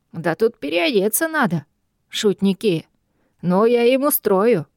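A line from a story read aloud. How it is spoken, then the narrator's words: Ominous tone, then barking. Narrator (Russian): Не сулящим ничего хорошего тоном пообещал он и гаркнул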